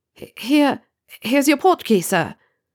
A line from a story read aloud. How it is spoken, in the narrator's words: the boy stuttered